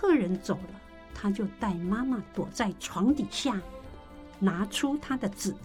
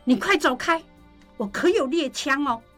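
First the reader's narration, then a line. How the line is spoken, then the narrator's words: Frightened shouting. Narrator (Chinese): 季珍就跟受惊了一样，冲着门外大喊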